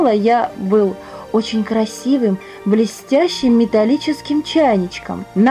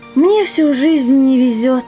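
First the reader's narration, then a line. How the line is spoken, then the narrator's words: Sighing. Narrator (Russian): вздохнул он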